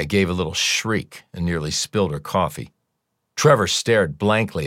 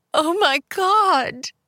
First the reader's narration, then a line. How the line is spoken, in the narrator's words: wailed Maya